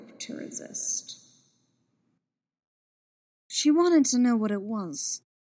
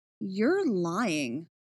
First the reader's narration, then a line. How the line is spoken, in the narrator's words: she said, slowly and clearly